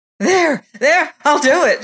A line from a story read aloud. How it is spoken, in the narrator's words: screamed Bellingham